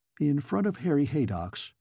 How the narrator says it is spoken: Kennicott sighed

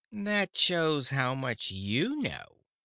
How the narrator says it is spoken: retorted the Glass Cat scornfully

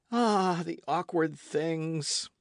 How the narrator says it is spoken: exclaimed Michel

